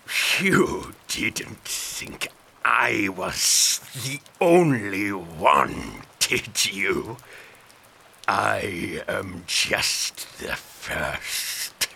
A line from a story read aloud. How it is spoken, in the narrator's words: he sneered